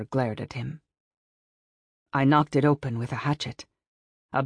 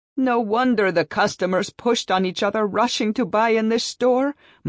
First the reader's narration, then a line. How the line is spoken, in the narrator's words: Mother wailed